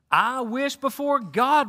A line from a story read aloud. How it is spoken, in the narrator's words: replied Paul